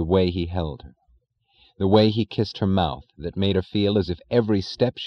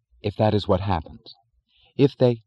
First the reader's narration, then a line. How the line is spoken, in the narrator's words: she said firmly